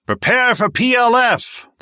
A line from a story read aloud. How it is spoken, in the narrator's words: the speakers roared